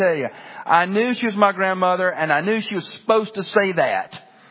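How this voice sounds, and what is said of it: Usual voice. Nothing is said of it.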